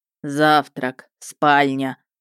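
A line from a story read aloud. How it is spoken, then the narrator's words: Booming, delighted zombie. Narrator (Russian): прогудел зомби с восторженным блеском в глазах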